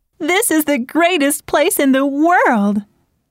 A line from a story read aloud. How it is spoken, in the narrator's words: They laughed as the wind blew their hair, and Mary Ann cried